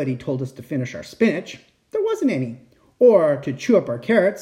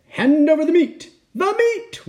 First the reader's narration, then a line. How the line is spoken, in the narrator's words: we all roared